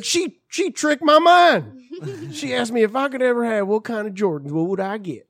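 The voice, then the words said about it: Puts on an accent. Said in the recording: “I don't know why I'm giving you that accent ... I gotta get back to my ... voice”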